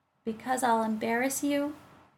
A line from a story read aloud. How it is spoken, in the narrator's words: she said solemnly